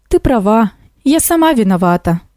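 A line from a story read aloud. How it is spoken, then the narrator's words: Sighing. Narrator (Russian): вздохнула кукушка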